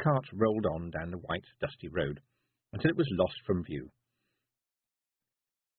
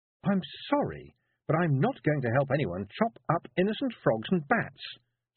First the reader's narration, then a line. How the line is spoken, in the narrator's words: said Tiffany firmly